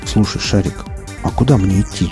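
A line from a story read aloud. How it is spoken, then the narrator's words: Plain. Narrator (Russian): спросил он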